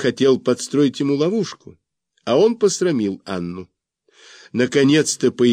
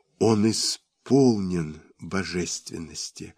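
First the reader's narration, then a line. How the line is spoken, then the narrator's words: Whisper. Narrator (Russian): шепнула она мне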